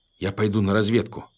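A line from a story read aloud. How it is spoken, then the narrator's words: Plain. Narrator (Russian): сказал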